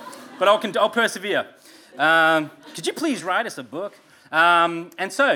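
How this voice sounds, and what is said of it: Usual voice. Nothing is said of it.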